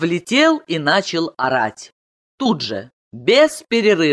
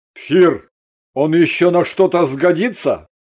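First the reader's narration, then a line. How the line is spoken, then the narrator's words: Contemptuous snort. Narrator (Russian): Симбиот презрительно фыркнул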